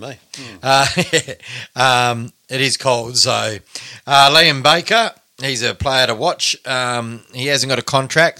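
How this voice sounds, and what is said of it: Hoarse, strained voice. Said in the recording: “I just about lost my voice.”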